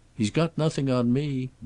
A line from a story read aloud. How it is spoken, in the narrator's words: Bassett responded cheerfully